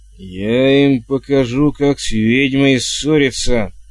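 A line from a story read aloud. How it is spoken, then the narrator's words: Angry growl. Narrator (Russian): рычала она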